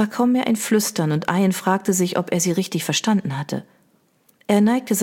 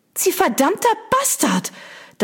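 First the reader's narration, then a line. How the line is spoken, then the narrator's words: Girl shrieking. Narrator (German): Das Mädchen kreischend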